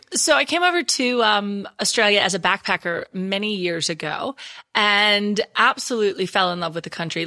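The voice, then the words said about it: Texan American accent. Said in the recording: “I still haven't lost my Texas accent, though. I think I watch too much American television. ... So I'll never lose my Texan.”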